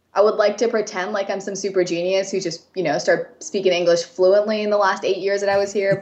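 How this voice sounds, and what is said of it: American English accent. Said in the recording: “I have a very American accent.”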